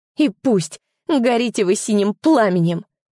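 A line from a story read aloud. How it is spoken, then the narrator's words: Angry hiss. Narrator (Russian): прошипело зло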